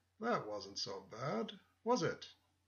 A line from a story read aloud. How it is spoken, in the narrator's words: said in a grandfatherly voice